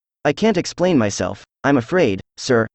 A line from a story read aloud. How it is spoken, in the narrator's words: said Alice